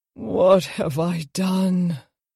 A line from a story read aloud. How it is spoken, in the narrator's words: He breathed